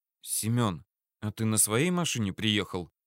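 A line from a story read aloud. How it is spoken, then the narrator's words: Quiet question. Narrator (Russian): тихо спросила она Мамонтова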